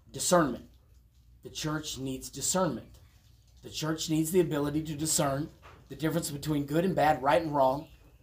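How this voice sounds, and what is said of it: Raspy, rough voice. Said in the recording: “my raspy throat”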